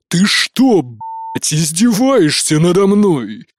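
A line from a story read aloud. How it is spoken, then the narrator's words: Roar. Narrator (Russian): Взревел глава клана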